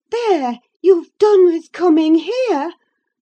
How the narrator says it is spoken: cried Catherine

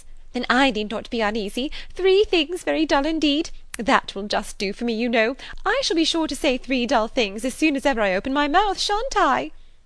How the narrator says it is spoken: exclaimed Miss Bates

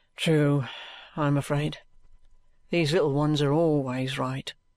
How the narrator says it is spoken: with a sigh

